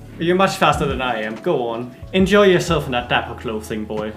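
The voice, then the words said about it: Imitated Scottish accent, admittedly poor. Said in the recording (Danish): “Jeg kan ikke lave en god skotsk accent lige nu.”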